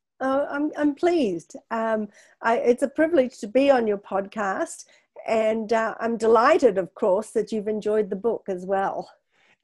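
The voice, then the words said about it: Australian accent. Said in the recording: “a really wonderful accent ... I come from Australia originally ... I'm not allowed to lose my accent”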